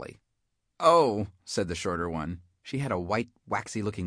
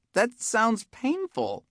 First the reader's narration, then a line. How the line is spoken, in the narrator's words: squeaked the taller one